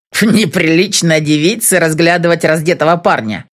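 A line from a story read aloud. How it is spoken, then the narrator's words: Snorting. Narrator (Russian): фыркнул он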